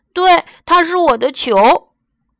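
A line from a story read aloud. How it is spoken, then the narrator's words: Stork's loud cry. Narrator (Chinese): 鹳鸟大叫一声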